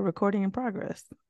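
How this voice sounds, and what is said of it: Imitates automated recording announcement voice. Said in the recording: “my imitation of the Zoom lady”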